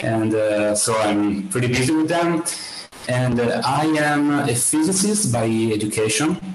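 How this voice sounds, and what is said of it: Italian accent. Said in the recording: “I'm from Italy, uh, as you may hear from my accent”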